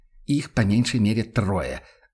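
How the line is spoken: Irritated. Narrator (Russian): сообщил Ван Ален раздраженно

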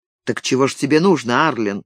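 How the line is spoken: Cold question. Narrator (Russian): холодно спросил Виктор

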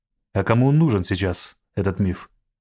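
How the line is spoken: Angry. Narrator (Russian): сердито первый

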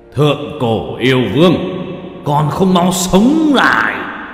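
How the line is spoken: Loud powerful shout. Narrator (Vietnamese): yêu lực toàn thân bùng nổ, hét lớn một tiếng

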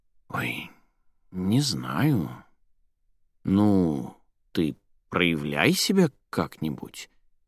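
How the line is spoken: Uncertain. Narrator (Russian): неуверенно проговорила Елизавета

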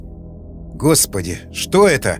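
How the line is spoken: Muttering. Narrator (Russian): пробормотал Дитрих

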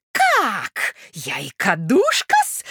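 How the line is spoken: Shrill shriek. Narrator (Russian): взвизгнула Наталья Дмитриевна

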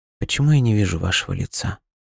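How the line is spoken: Barely audible girl's question. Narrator (Russian): еле слышно спросила девочка

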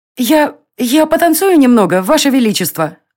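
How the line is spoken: Exclaiming. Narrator (Russian): воскликнула Варя

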